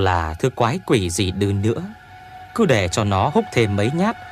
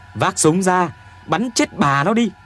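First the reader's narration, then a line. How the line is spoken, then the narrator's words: Shouting. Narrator (Vietnamese): Tôi hét lên với Tuyền Béo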